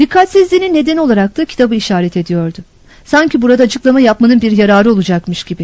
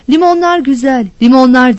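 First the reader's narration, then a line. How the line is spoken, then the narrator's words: Shouting. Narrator (Turkish): diye bağırıyordu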